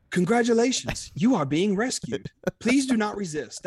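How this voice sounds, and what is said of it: Put-on British accent, robotic. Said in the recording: “put on my British accent ... That was a little too C-3PO-ish.”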